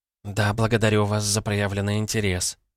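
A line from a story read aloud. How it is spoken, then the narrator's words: Mumble. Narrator (Russian): пробормотала Ирина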